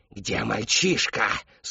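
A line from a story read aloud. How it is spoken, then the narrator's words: Hiss. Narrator (Russian): снова прошипела Шептунья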